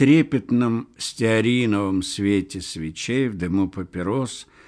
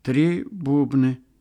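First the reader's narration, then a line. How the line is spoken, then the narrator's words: Timid. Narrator (Russian): робко сказал Ларёсик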